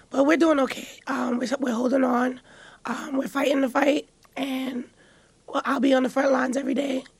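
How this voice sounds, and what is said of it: Hoarse, weakened voice. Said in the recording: “I lost my voice.”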